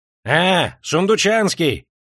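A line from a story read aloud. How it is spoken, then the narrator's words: Shouting. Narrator (Russian): закричал Отверстиев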